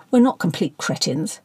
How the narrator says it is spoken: growled Ben

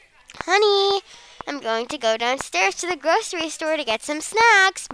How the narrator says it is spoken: my mom shouted from downstairs

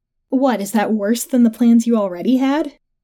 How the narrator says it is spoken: Gina chuckled

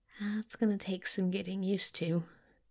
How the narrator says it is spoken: Crowley said weakly

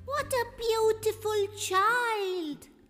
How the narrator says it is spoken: cried the magpie

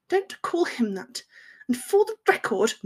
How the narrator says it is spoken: Through gritted teeth, she bit out

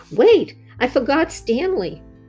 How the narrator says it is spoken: Wendy shouted

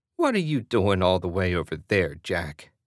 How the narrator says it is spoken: Emma giggled

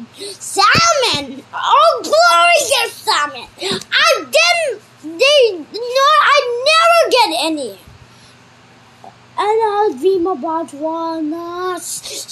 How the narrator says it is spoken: shouted the monkey

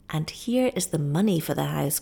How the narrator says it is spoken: cried Lepaka

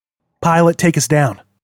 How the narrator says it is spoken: he said

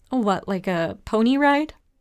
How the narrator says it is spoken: Chief Harlow laughed

